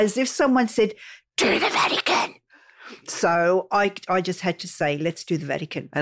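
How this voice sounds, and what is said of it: Usual voice. Nothing is said of it.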